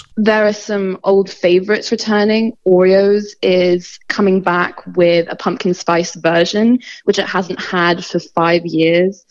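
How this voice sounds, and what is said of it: Hong Kong English accent. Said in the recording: “obvious from her accent ... I'm from Hong Kong”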